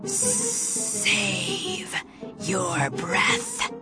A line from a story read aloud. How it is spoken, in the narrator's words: he hissed